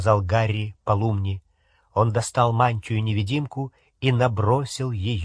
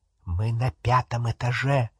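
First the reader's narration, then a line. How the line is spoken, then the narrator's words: Whisper. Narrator (Russian): прошептал он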